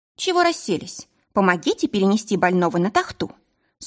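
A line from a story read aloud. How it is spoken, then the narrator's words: Stern command. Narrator (Russian): Строго велела я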